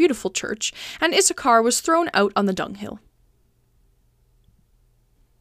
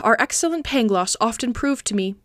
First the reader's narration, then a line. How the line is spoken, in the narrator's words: said Candide with a sigh